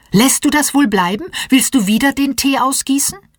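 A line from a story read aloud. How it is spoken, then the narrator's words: Caregiver calling out. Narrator (German): ruft die Erzieherin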